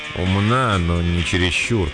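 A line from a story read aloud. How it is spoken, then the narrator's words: Reluctant grumble. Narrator (Russian): пробурчал он, сделанный неохотой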